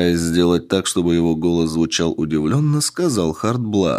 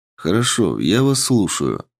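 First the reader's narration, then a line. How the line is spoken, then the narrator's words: Calm. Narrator (Russian): спокойно произнес я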